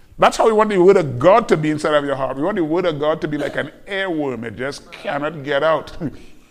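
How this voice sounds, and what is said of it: Speaks with a noticeable accent. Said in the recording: “Get used to my real weird accent. ... the more you get used to my accent, you won't assume airworm is heirloom.”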